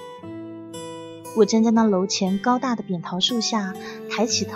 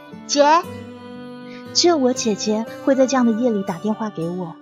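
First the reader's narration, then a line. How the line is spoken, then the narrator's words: Panting breathless. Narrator (Chinese): 我气喘吁吁的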